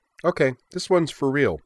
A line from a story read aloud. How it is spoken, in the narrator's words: said happily